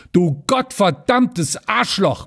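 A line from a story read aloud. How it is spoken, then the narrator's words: Roaring angrily. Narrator (German): brüllte Rüschenberg wieder los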